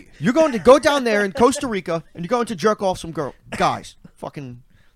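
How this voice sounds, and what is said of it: Andrew Tate impression. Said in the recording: “That's a pretty good Tate impression.”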